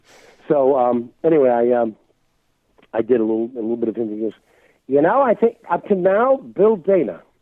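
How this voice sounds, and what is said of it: Voice affected by a cold. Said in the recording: “now you hear the cold”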